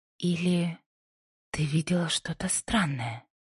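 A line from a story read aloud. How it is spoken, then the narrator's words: Quiet interjection. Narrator (Russian): Пасифика тихо вставила свой вопрос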